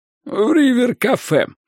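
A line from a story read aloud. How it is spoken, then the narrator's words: Hoarse wheeze. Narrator (Russian): прохрипела она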